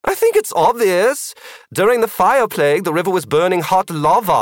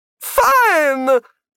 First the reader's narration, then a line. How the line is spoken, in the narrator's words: Magnus Galka shouted